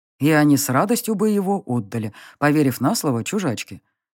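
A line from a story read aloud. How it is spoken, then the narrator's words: Werewolf's scoffing snort. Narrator (Russian): хмыкнул оборотень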